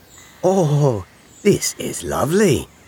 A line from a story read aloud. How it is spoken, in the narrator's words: Rabbit gasped